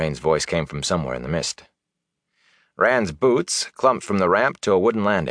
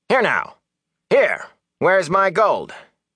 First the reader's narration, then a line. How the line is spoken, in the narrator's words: Master Hightower called out angrily